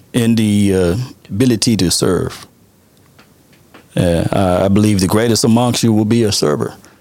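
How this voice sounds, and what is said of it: Deep radio-style voice. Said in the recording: “deep ass radio voice... it sounds fake, don't it? But it ain't. It's real.”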